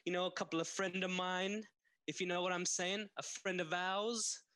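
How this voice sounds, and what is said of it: Italian mafioso character voice. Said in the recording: “I do a lot of bit of the mafioso type gear ... Italian characters”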